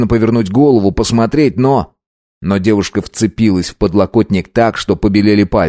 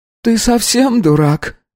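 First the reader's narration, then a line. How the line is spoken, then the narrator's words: Hoarse reply. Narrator (Russian): отозвалась хриплая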